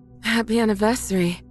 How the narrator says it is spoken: my wife says between pants

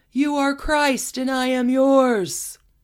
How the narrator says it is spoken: Olga screaming

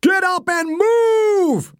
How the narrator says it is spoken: Nail screamed

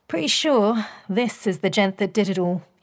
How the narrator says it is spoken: he said

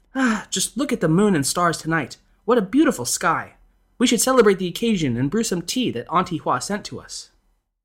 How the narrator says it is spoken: the lady of the house exclaimed

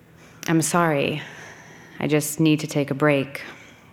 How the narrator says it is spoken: Meg said, very gently

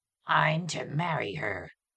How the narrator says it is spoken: that growl again

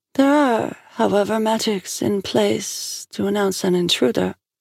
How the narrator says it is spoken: said, bowed her head sadly

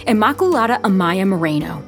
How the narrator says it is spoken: the sister yelled

